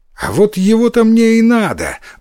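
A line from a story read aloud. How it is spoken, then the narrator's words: Exclamation. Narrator (Russian): воскликнул Иссумбоси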